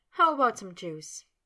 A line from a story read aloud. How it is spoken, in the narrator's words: Sabrina, still chuckling, asked